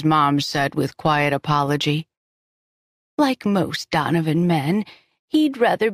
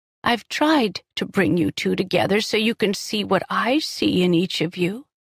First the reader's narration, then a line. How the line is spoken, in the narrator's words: she said, her voice heartbreakingly sad